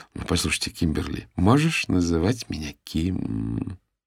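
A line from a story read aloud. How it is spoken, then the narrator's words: Purring. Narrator (Russian): промурлыкала офис-менеджер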